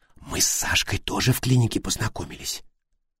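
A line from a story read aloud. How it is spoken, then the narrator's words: Whispered. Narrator (Russian): она шепнула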